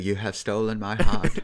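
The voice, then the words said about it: Rami Malek impression, British-sounding. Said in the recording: “Apparently, I do a good, pretty good Rami Malek impression. ... He's not even British though, but he like kind of sounds British ... he just enunciates words a little weirdly.”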